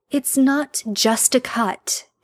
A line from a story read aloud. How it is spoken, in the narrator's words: she sighs